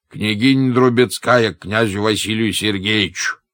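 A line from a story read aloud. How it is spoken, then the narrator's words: Shouted. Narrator (Russian): крикнул он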